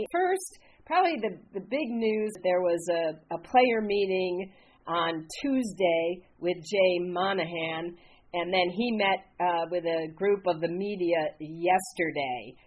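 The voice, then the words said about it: Sick, deeper-sounding voice. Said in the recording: “I got my best radio voice on today ... Caught a little something out there in California.”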